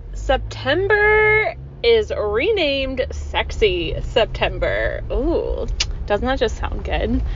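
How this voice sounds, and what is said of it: Put-on sexy voice. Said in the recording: “sexy voice”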